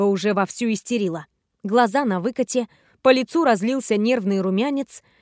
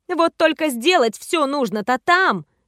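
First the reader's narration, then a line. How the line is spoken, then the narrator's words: Exclamation. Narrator (Russian): воскликнула Альва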